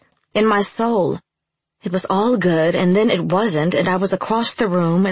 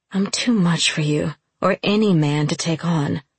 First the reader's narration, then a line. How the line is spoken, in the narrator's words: I whispered